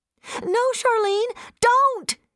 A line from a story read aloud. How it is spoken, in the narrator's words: she cried